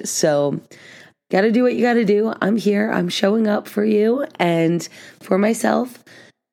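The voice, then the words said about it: Worn-out, strained voice. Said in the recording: “if I sound a bit different today ... my voice is pretty much done from the past few days of just talking and singing ... I even did some vocal warm-ups to try to prepare my voice for you, but it hasn't completely worked”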